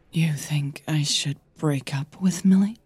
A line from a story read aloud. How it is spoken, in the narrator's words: Her voice was barely a whisper